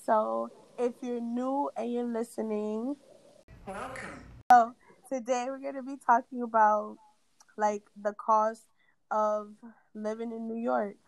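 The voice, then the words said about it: Raspy, sick-sounding voice. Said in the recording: “as you can hear, I'm sick... I had an asthma attack, so my voice sounds a little bit raspy”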